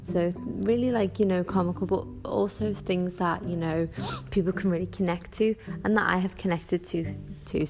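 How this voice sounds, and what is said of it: Scouse accent. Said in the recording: “my Scouse accent”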